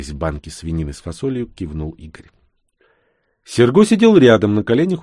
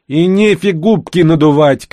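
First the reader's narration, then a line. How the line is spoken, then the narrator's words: Shout. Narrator (Russian): крикнула ей вслед Карина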